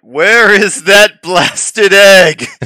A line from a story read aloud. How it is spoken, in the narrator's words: John will yell out